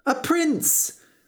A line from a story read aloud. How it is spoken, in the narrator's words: cried George